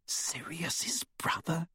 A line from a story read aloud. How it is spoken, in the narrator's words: She whispered